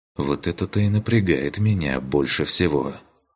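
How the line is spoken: Sighing mage. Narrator (Russian): Вздохнул маг

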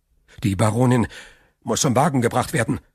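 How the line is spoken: Stammering. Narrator (German): stammelte Villefort

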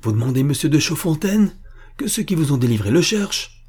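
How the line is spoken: Exclaiming. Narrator (French): s'écria-t-il

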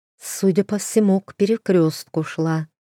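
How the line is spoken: Plain. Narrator (Russian): ответила Ида

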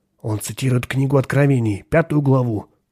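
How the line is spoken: Angry reply. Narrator (Russian): ответил Ширин и добавил сердито

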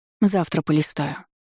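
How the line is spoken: Whispered to herself. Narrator (Russian): прошептала больше себе и каменные глыбе, забаррикадировавший проход, чем хозяйке

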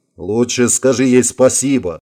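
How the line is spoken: Indignant interruption. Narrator (Russian): возмущенно перебил его Гарри

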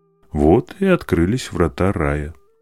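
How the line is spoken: Plain. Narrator (Russian): сказал Хакуин

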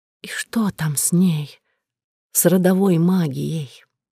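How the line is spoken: Hoarse whisper. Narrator (Russian): я хрипло прошептала

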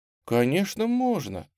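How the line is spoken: Gentle reply. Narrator (Russian): ласково ответила Тамара

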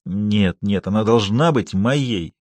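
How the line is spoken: Frantic passionate mutter. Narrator (Russian): В приливе буйства чувств бормотал он

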